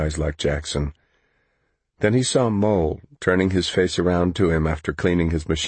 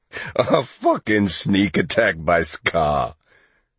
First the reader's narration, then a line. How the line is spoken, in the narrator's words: Jackson said between giggles